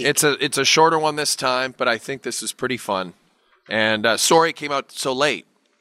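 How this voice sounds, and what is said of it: Thick Canadian accent. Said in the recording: “sorry about my voice. My Canadian accent is thick today.”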